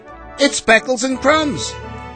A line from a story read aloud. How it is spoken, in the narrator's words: she yelled